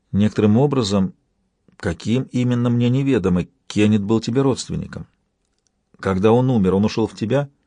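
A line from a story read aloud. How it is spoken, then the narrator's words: Quiet, hoarse, trembling. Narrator (Russian): Она говорила тихо, и все же на этих последних словах голос заметно охрип, и совершенно ощутил ее дрожь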